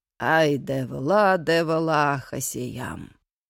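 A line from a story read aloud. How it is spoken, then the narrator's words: Earnest deep bass. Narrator (Russian): дядя Петя ответственно басил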